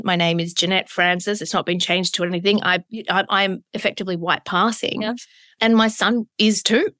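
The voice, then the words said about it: Broad Australian accent. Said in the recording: “I have, you know, a broad Australian accent.”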